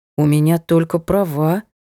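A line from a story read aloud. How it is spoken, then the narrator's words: Mumbled. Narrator (Russian): промямлил Вова Вадим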